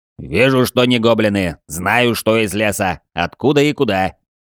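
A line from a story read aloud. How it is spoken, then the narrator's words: Clipped, angry question. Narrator (Russian): Чеканя слова, злобно спрашивал рослый орк-сержант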